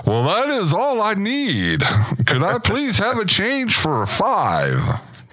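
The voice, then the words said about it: Polished radio announcer voice. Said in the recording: “radio voice”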